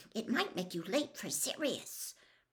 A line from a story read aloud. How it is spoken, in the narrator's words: She looked nervously around and hissed